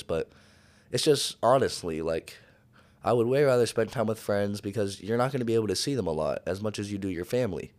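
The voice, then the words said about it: Hoarse, tearful-sounding voice. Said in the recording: “it sounds like I'm crying with my voice ... my voice is hoarse”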